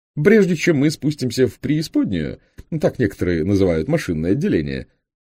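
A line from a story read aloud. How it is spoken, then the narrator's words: Joking, laughing at himself. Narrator (Russian): выдал он многократно обкатанную шутку и сам ей засмеялся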